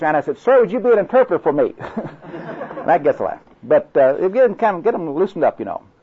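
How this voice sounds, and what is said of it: Oklahoma accent. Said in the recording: “I apologize for my Oklahoma accent ... I sure enjoy your accent”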